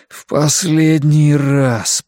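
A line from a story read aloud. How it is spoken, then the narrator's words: Moaning. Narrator (Russian): простонал я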